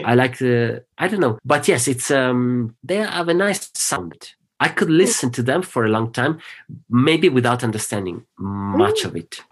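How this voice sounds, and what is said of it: Non-native English accent. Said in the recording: “I learned too late, so I cannot have a proper English accent.”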